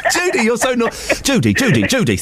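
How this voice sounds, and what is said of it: Imitates another person's voice. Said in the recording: “Is this Cary Grant? ... not a bad impression though, is it?”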